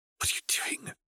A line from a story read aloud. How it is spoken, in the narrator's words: Druella hissed